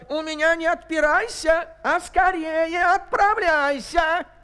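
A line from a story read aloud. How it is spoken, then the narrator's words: Angry shout. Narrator (Russian): Царь со гневом закричал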